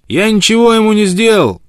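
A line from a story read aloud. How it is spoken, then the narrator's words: Shouted. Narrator (Russian): крикнул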